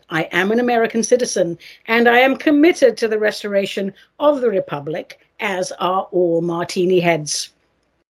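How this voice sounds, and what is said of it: Non-American accent. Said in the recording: “people with my accent were told to go back home and stay there. But please don't be fooled by my accent.”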